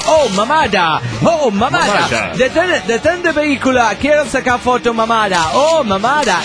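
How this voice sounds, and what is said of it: Mock American accent speaking Spanish. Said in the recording (Spanish): “con su acento gringo”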